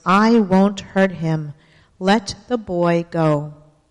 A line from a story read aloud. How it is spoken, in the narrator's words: said in a loud, clear voice